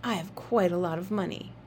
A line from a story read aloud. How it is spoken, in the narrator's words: Jamie whispered